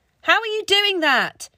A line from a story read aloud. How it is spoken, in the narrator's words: he shouted